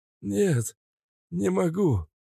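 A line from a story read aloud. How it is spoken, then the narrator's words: Old man's hoarse wheeze. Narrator (Russian): хрипел старик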